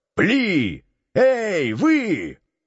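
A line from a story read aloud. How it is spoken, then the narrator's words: Shouting to intimidate. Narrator (Russian): рассчитывая на страх, закричал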